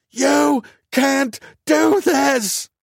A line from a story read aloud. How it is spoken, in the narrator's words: screamed